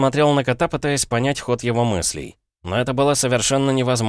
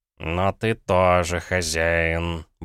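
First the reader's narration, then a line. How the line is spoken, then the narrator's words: Grumbled, cat. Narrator (Russian): буркнул кот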